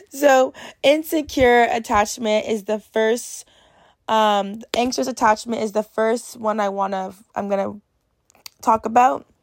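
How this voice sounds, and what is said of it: Hoarse, raspy strained voice. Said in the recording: “I'm really sorry for my voice ... I'm losing my voice. So I'm really sorry if I sound like a freaking chain smoker right now.”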